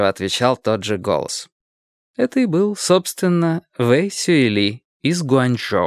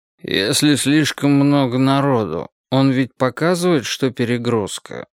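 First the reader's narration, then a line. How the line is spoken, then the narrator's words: Sleepy question. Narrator (Russian): сонно спросил какой-то студент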